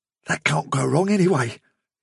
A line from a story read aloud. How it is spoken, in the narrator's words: he whispered